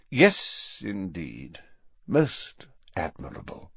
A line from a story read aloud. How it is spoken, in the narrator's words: said Snape in a bored voice